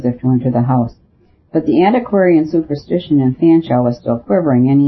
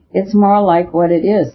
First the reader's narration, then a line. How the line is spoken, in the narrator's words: said the Admiral, laughing